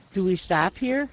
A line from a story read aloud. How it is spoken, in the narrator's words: I asked